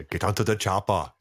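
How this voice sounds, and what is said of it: Arnold Schwarzenegger impression. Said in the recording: “I have to say chopper before I can do any more Arnold, because the word chopper can only be said that way.”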